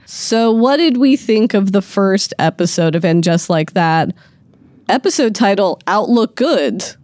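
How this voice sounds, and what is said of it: Voice hoarse from a cold. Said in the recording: “tell from my voice, guys, recovering from that cold that is going around”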